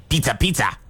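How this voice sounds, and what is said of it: Imitates the Little Caesars mascot. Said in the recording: “I'm going to do my best impression here ... that was pretty good”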